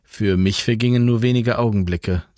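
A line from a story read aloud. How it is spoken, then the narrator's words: Plain. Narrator (German): sagte Jan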